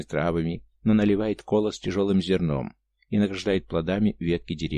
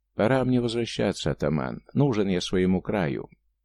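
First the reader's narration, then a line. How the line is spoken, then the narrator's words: Calm. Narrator (Russian): спокойно сказал казак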